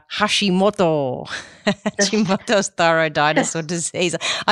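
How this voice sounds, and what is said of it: Put-on Japanese accent. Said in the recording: “I just love saying that in my best Japanese accent. ... It's the perfect pronunciation. It's the best one I've heard.”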